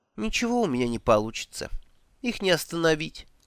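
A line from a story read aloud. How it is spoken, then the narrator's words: Dejected. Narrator (Russian): уныло махнула рукой Элла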